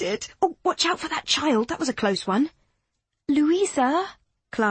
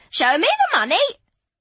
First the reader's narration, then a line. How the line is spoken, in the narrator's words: Lady Carcar screeching